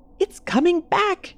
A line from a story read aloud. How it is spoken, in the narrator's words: shriek